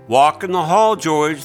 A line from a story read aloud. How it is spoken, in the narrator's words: the playground lady called out